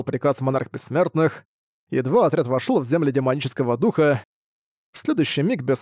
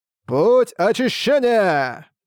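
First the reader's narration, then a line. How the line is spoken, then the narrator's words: Thunderous group shout. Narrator (Russian): одновременно закричали культиваторы Альянса, и их крик, словно раскаты грома, разнесся эхом по округе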